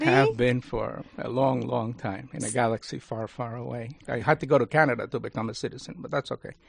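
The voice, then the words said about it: Speaks with a noticeable foreign accent. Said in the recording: “we are all detecting an accent... I was born in Cuba”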